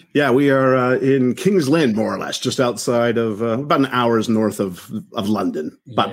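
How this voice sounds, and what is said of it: English accent. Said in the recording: “our two English accents.”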